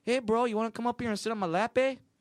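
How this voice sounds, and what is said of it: Attempted Canadian accent sounding Latino. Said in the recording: “In a Latino voice. ... That was supposed to be a Canadian ... worst impressionist and voice actor of all time”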